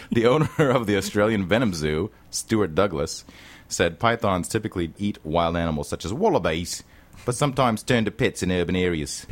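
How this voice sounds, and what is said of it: Decent put-on Australian accent. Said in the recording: “not a bad Australian accent”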